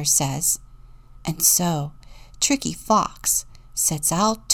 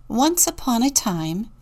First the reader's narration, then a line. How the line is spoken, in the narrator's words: began the kindly teacher